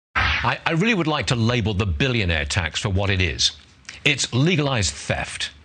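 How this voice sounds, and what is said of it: British accent. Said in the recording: “He's a Brit. He's got that great accent”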